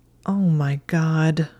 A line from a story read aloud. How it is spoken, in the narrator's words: Hermione moaned, feeling ready to pass out with embarrassment